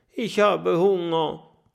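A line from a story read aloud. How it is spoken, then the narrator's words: Groaning. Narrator (German): stöhnt Oskar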